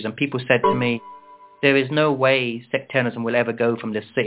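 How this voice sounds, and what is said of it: Southern English accent. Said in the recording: “I have an English accent ... when I grew up in South England”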